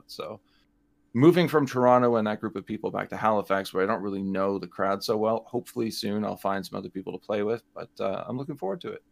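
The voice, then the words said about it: Canadian English accent. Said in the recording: “He is Canadian, if you couldn't tell ... his accent”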